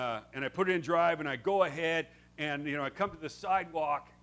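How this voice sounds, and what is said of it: Usual voice. Nothing is said of it.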